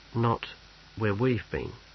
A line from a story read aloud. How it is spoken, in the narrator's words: said Snibril quietly